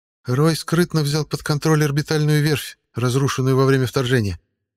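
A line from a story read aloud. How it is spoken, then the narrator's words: Flat colorless voice. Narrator (Russian): бесцветным голосом ответила Джао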